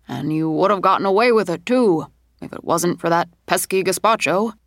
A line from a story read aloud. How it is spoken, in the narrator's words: he said in a cartoony old man voice